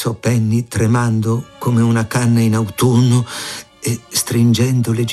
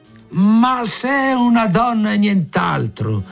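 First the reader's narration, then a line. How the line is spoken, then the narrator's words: Boss shouting, beside himself. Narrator (Italian): gridò il capo ormai fuori di sé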